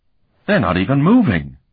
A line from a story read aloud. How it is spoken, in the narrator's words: Colton exclaimed